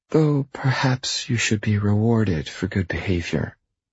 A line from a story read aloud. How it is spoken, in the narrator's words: she purrs